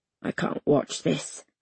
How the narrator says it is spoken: I mutter

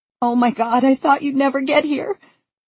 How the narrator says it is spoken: Val sobs in my ear

